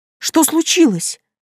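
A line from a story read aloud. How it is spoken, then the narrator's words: Exclamation. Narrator (Russian): воскликнула я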